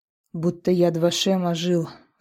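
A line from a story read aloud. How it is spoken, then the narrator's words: Guard's sigh. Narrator (Russian): вздохнул охранник посольства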